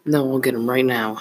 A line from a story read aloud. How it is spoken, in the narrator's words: said Jeremy